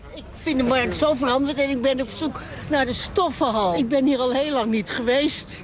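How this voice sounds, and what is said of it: Amsterdam Dutch accent. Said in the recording (Dutch): “iedereen zegt dat ik een Amsterdamse ben. Dat horen ze allemaal aan me.”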